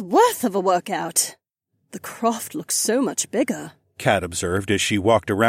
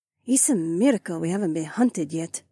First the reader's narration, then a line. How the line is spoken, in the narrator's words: Haywan muttered